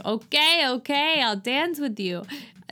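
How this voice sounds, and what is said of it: Put-on, poor French accent. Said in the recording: “This is my French accent. But that's that's not French.”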